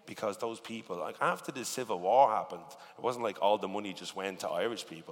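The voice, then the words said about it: Irish accent. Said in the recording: “Like my accent is, we're either commentating on football, it's crime or it's comedy ... who on the radio sounds like me?”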